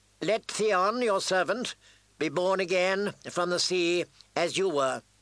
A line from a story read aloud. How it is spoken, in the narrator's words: Aaron Greyjoy intoned